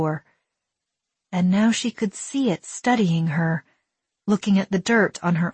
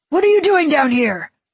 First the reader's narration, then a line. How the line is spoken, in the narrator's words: One shouted at Willa